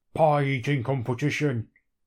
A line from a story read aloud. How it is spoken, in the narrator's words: he says gruffly